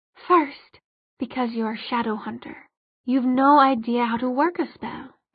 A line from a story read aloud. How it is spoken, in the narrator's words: she said calmly